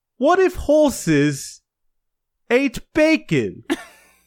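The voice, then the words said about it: Weird put-on British accent. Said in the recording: “in this weird British voice”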